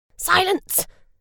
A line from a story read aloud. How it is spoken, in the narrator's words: Miss Grey snapped